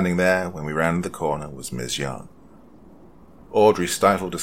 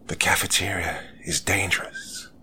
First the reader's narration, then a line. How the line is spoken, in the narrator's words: whispered, pure ecstatic relief